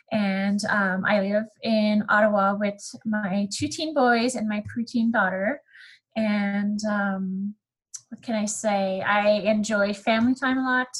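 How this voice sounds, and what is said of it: Slight French accent. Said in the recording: “I am Canadian, and you will hear this throughout the podcast. I have a little French accent. My first language is actually French.”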